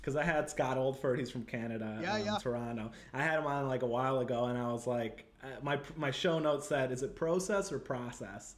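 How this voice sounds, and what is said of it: Heavy Chicago accent. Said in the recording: “My wife says I have a heavy Chicago accent... you've got a pretty good Chicago one”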